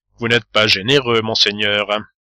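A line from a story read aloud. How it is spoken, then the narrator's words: Sad. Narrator (French): rougit et dit tristement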